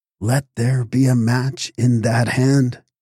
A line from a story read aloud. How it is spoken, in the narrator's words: he said